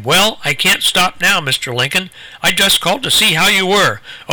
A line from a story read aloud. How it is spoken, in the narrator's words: Lincoln's visitor exclaimed